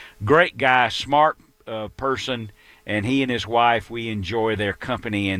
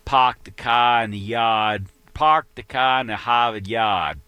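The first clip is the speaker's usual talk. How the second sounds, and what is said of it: Exaggerated Boston accent. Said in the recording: “he's from Boston, and he still carries a reflection of that accent ... But not quite that bad. I'm exaggerating.”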